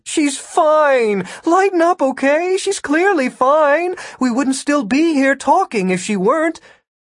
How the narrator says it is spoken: Ida whined

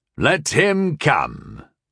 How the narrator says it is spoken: called the guard captain, Vryn, gruffly

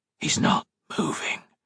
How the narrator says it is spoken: Octavia whispered

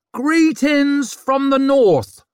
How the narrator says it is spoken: she screeched

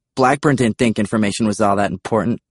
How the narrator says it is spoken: I snapped

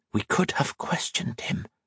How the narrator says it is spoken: Captain Monturiel whispered

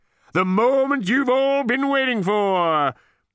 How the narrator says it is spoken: cried Max from the centre of the stage

